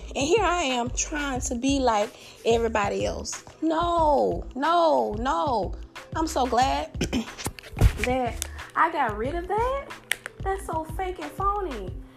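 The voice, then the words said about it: Southern American accent. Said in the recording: “my southern accent ... My southern charm, the way I talk”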